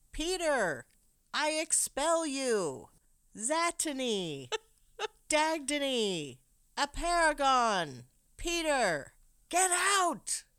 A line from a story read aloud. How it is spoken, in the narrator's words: She's yelling at Peter, saying